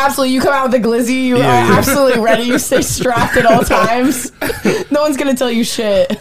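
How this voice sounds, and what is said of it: Usual voice. Nothing is said of it.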